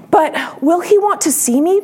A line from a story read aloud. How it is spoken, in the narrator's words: Punchinello cried out